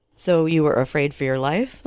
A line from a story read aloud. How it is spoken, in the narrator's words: the lawyer asks